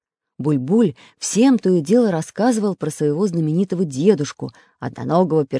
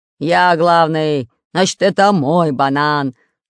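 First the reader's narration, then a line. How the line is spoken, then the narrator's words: Growling. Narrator (Russian): рычал Бульбуль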